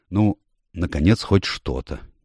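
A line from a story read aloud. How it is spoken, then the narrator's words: Quiet but excited. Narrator (Russian): негромко, но взволнованно сказал лорд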